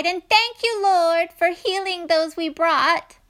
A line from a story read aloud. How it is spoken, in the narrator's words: cried